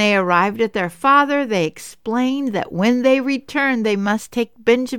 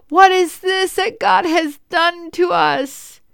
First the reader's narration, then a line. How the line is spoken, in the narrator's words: They cried out